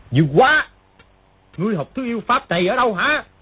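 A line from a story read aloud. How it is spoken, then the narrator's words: Alarmed angry shout. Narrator (Vietnamese): Triệu Chí Kính vừa kinh hãi vừa tức giận gọi to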